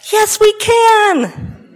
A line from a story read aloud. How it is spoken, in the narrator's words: My heart welled up in my throat, and I called out